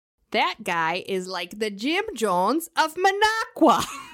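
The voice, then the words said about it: Put-on Wisconsin accent. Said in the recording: “I'm going to say this in my Wisconsin voice”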